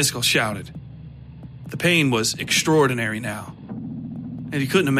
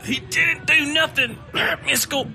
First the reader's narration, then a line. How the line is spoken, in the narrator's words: Don said between grunts